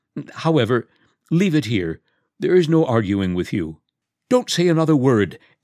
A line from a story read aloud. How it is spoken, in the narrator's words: exclaimed Sasha joyously